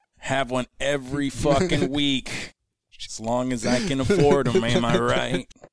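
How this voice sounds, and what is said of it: Poor imitation of another person's voice. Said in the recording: “That was a horrible impression. ... It's passable. ... I'm not the best at impressions. ... that was horrible. Fucking horrible.”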